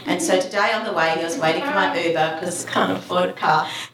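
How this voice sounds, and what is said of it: Australian accent attempting American. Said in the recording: “you sound Russian ... I'm Australian trying to do American accent with very limited success”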